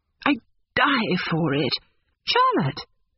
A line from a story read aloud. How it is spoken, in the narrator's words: cried the girl suddenly